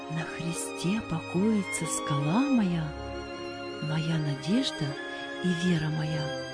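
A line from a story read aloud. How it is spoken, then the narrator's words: Soft singing. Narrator (Russian): он тихонько напевал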